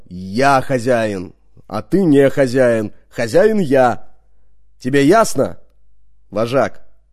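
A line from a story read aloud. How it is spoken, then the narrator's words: Menacing growl. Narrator (Russian): прорычал так грозно, как умел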